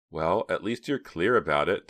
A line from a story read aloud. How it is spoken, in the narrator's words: Donna laughed